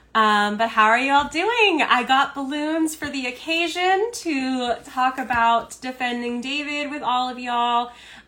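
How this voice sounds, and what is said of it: Scratchy voice from a cold. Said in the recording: “My voice is a little bit scratchy. I am getting over a cold, just a cold”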